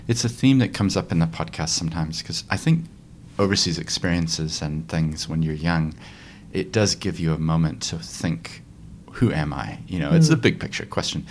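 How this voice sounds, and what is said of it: American accent. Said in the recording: “I have an accent, but I actually grew up here, actually in Christchurch ... my parents are from America”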